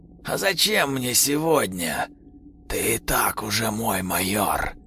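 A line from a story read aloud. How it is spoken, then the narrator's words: Whisper with nasty giggling. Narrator (Russian): Прошел шепот с каким-то мерзким хихиканьем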